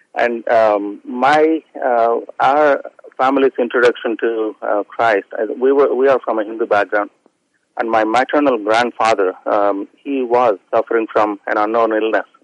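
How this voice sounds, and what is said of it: Indian English accent. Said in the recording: “if my accent didn't give it away, I'm from India.”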